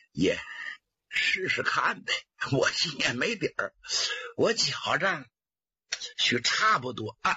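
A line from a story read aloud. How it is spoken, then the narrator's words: With a smile. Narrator (Chinese): 佟林一笑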